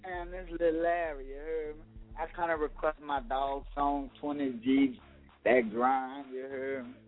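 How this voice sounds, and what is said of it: New Orleans twang accent. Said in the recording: “From that N.O., can't you hear me, my twang?”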